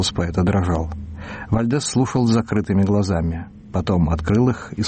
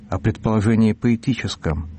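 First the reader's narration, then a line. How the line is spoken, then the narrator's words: Timid correction. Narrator (Russian): робко поправил арестованный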